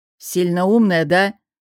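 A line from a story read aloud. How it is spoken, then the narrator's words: Sullen snapping retort. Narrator (Russian): огрызнулся, насупившись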